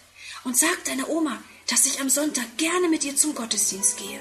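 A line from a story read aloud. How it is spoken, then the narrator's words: Whispered. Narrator (German): flüstert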